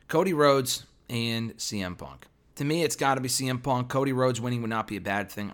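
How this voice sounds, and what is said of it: Strained, fading hoarse voice. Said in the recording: “I'm losing my voice.”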